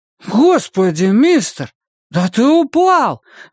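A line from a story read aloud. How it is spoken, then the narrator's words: Exclaiming. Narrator (Russian): воскликнул Том Каллен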